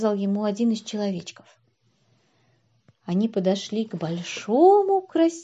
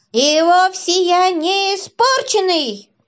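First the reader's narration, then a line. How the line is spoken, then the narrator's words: Shouted. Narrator (Russian): закричал плюш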